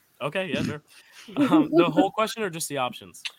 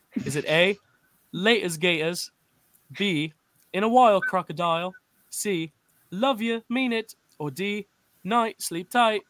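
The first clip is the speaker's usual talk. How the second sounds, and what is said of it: Put-on British accent. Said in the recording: “I'm going to say these all in a British accent.”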